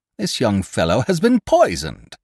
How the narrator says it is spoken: he cried

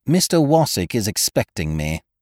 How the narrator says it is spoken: replied coldly

